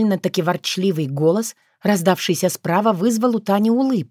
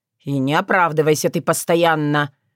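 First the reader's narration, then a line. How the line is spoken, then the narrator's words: Grumbling. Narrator (Russian): продолжил ворчание Танин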